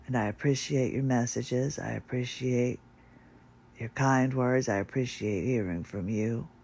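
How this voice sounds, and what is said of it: Impaired, unwell-sounding voice. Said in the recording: “as soon as my voice gets back up a little bit better”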